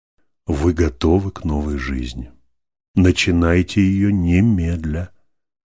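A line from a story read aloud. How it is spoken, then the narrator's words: Very tender reply. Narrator (Russian): ответил ей очень ласково Иллалион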